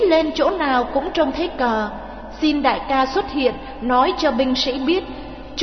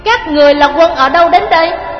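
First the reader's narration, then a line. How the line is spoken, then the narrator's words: Shouting through megaphone. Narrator (Vietnamese): Nghiêm Sơn cầm loa quát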